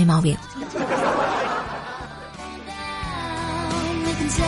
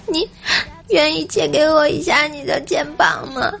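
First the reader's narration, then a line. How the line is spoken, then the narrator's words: Excited, hurried answer. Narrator (Chinese): 无忌 很是激动啊，赶紧回答说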